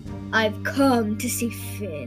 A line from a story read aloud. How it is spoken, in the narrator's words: he growled